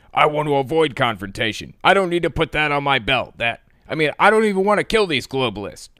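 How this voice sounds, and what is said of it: Imitates another person's voice. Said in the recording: “my Alex Jones voice ... That's the best impression I can do for now.”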